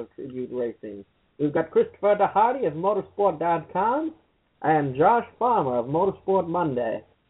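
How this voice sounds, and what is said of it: Put-on accent. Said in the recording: “I'll drop the voice ... that accent”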